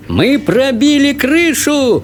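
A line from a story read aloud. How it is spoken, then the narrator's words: Joyful yell. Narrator (Russian): радостно завопил мистер Уонка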